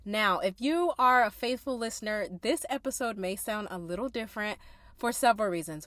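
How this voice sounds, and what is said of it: Stuffy, congested voice. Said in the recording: “I'm just getting over being sick, so I sound kind of stuffy.”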